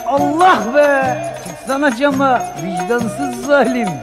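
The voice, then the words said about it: Drunken shouting. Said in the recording (Turkish): “Yine mi sarhoşsun? Gecenin bu saatinde bağırıp durma.”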